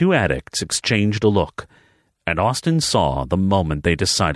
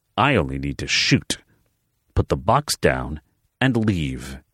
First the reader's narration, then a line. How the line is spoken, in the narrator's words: he repeated, his voice calm and steady